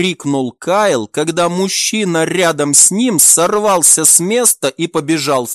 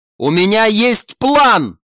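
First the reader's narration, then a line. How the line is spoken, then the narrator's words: Shout. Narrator (Russian): прокричал последний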